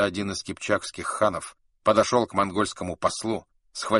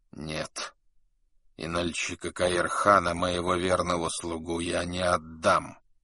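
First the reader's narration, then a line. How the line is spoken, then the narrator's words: Quiet, trembling voice. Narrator (Russian): Его губы дрожали, когда он тихо сказал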